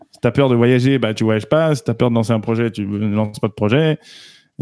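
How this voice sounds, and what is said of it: Slight Québécois French accent. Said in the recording (French): “tu as un petit accent québécois.”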